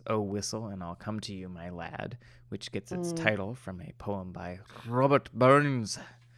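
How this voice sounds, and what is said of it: Put-on Scottish accent. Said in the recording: “That was my Scottish accent. ... I can tell.”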